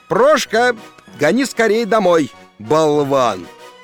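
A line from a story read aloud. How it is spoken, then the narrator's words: Shout. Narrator (Russian): крикнул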